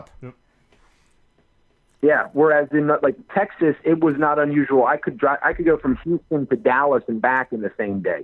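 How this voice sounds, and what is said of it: New Jersey accent. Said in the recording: “I like that you didn't lose the accent, though. You still sound like a Jersey boy.”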